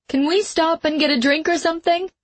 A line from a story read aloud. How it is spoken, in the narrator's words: she said, raising her voice to be sure he could hear